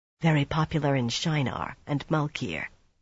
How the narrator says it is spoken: Swan said just as quietly

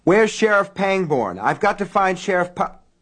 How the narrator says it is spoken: Norris Ridgwick burst into the sheriff's office moments before the bridge went, yelling at the top of his lungs

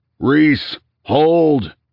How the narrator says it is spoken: he heard his friend bellow

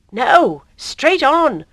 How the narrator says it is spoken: cried the same voice

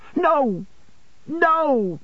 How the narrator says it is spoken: cried Emily

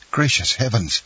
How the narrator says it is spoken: exclaimed Dantès

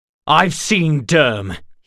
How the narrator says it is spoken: he spat

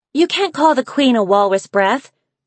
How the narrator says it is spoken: Snowfall shouted

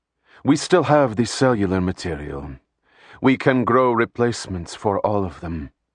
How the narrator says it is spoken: Shiana said in a coldly businesslike voice

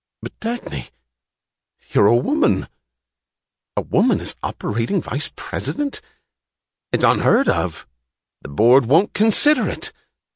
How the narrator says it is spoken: He gasped

